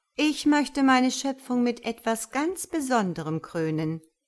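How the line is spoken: Plain. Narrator (German): sagt Gott

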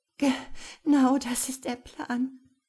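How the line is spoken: Sobbing. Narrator (German): schluchzte sie

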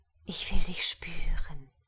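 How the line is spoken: Breathy whisper. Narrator (German): hauchte

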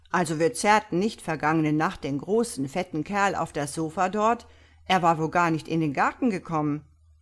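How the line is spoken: Calling out. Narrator (German): rief

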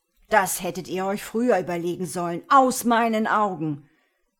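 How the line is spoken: Male roar. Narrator (German): brüllte er

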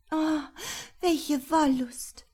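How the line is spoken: Sighing. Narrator (German): seufzte

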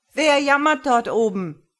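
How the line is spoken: Loud call. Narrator (German): rief mit lauter Stimme

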